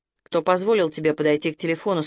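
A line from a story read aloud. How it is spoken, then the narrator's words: Plain. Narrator (Russian): спросил Хикки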